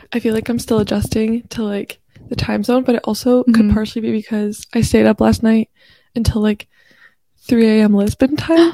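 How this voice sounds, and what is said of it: Slightly raspy voice. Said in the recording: “sorry if my voice sounds a little bit like raspy.”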